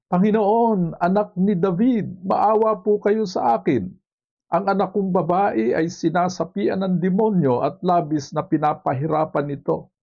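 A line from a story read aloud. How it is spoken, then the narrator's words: Woman crying out, pleading. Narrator (Tagalog): Isang Kananeya na sumisigaw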